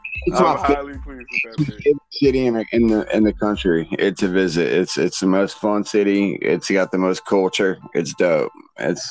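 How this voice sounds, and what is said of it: Laid-back surfer-like speech. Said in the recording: “how you sound like a surfer right now”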